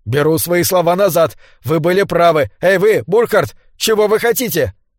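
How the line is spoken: Shouted. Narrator (Russian): Свансон крикнул

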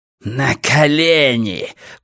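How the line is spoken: Hissed. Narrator (Russian): прошипел он

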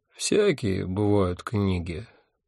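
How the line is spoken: Drowsy mumble. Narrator (Russian): пробормотал я, проваливаясь в сон

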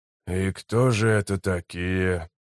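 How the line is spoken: Whispered question. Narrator (Russian): поинтересовался он шепотом

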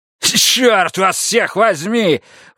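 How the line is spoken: Sudden outburst shout. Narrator (Russian): вдруг выкрикнул он в никуда

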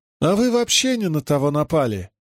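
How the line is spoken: Unexpectedly thin voice. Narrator (Russian): ответил Риналь неожиданно тонким голосом

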